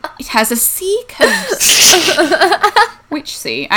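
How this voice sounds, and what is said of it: Poor attempt at British accent. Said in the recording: “I can't do a British accent, but Dixon's done it enough that I wanted to try”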